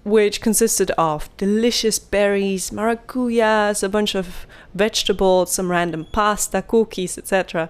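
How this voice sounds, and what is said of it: Slightly Italian accent. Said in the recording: “I don't know why I said that in a slightly Italian accent.”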